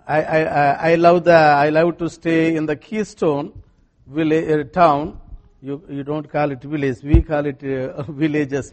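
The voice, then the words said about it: Indian English accent. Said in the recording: “everybody knows in India how to speak English... my accent and my vocabulary are a little different”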